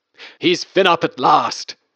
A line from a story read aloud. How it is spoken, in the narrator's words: screamed at the very top of my voice